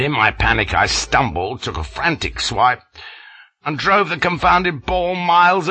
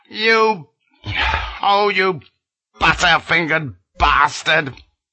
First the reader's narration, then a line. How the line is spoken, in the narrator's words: roared, but it was lost in the tumult